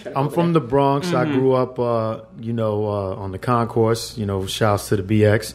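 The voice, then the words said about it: Bronx New York accent. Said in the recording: “You hear that accent? ... A no real doubt. Bronx person.”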